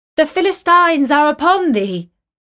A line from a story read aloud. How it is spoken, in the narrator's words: she cried